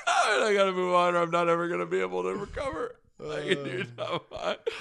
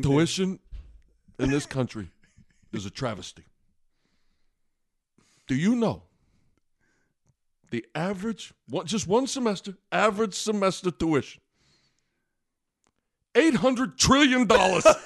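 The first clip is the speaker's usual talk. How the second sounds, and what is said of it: Imitates another person's voice. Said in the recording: “my Bernie Sanders impression”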